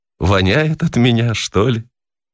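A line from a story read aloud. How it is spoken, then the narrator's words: Pensive, amused surprise. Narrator (Russian): Весело удивляясь по поводу своих сбежавших мужей, она задумчиво проговорила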